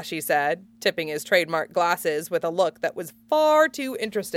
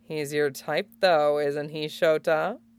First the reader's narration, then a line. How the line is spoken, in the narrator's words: Midnight purred, as if in a passion